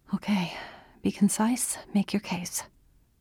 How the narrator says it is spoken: Andy muttered to herself

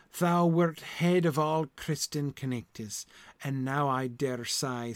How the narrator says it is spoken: sighed Sir Ector

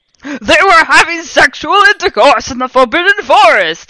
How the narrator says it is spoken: yelled in a furious voice

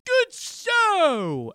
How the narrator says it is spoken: I exclaimed in jubilation

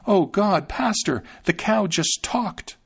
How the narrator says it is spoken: She ran in haste to her master and exclaimed

